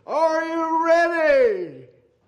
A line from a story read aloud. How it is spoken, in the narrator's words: a herald would shout to that vast number